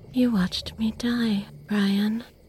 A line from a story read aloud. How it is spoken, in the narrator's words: she would say in a soft, eerie, calm voice